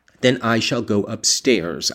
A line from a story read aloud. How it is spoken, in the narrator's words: I answered